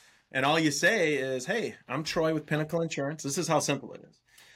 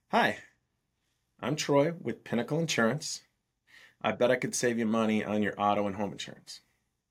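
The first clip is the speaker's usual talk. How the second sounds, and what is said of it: Slow, deliberate sales pitch. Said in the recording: “I even say it slower, though. This will literally be how I do it.”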